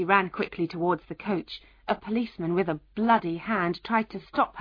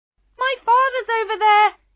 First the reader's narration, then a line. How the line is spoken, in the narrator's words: she screamed